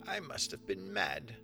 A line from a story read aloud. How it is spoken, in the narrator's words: she muttered